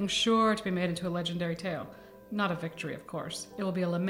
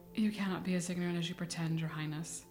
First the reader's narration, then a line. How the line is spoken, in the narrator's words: he said quietly